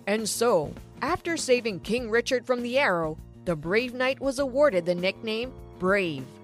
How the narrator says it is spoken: Dad said loudly

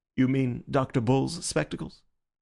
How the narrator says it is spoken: the President went on with a sort of smooth appeal

